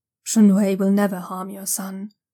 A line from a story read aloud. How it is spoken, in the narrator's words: the envoy says gravely